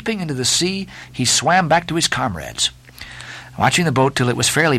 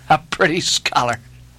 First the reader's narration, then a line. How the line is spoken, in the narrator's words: laughed the lakeman